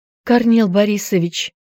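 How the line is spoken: Frightened babbling. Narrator (Russian): залепетала испуганная няня

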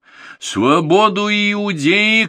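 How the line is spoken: Shouted. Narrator (Russian): крикнул Варава

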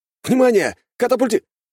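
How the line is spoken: Pilot shouting. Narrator (Russian): закричал пилот

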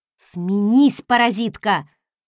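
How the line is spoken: Snarl. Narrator (Russian): рыкнула я

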